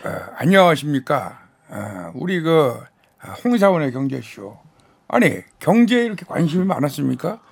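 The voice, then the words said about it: Imitates a politician's voice. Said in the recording (Korean): “정치인 성대모사로 좀 해주실 수 있어요? ... 가장 높은 분부터”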